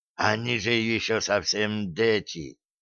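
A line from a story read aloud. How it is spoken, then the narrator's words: Hoarse whisper, pale. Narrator (Russian): хрипло прошептал побледневший Лема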